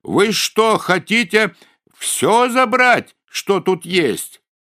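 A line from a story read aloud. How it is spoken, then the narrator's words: Small boy yelling loudly. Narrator (Russian): мальчик с пальчик как закричит опять во всю глотку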